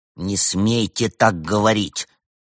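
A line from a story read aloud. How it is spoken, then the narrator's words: Angry, sulky. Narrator (Russian): сердито нахохлился Евгений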